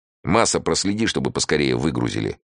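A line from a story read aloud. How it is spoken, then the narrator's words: Irritated command. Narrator (Russian): раздраженно велел Эраст Петрович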